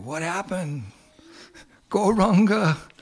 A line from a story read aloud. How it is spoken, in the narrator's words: the devotees started screaming